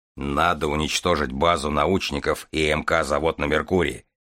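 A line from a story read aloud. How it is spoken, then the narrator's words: Deep gloomy voice. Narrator (Russian): пробасил Железовский мрачно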